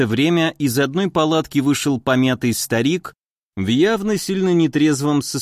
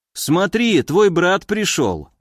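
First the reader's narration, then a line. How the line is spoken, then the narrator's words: Joyful. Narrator (Russian): радостно сказал Стиляга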